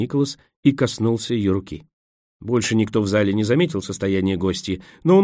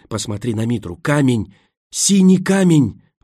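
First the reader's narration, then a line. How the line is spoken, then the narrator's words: Breathless exclamation. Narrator (Russian): выдохнула она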